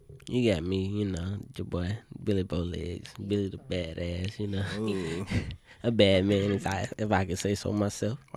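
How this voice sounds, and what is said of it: Put-on sexy voice. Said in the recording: “sexy voice”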